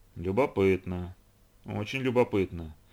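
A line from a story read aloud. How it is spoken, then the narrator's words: Muttering to himself. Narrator (Russian): бормотал себе под нос капитан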